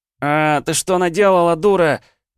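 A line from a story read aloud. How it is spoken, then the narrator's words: Yelling. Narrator (Russian): заорал я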